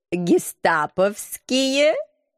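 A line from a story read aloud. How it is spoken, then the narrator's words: Giggling tease. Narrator (Russian): хихикнув, подколол агент 013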